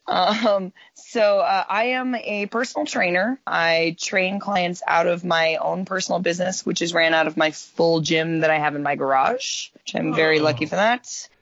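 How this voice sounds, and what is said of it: Slightly raspy voice. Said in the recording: “my voice sounds a little raspy. ... I yell at rooms full of 40 people at a time”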